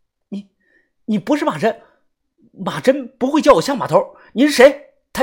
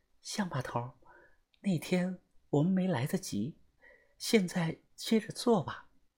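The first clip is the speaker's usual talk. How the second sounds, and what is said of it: Quiet whispered speech. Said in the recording (Chinese): “小声的对着我耳朵说道”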